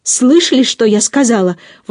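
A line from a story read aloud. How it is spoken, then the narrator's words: Exclamation. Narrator (Russian): воскликнула дама Лицея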